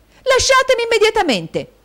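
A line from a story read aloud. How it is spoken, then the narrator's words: Shouting. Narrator (Italian): gridò Caterina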